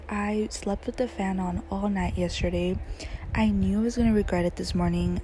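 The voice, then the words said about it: Slightly raspy, sore-throat voice. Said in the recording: “my voice sounds weird... I have a sore throat now and it hurts when I talk... a little bit raspy”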